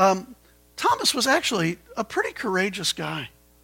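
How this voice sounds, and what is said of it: Usual voice. Nothing is said of it.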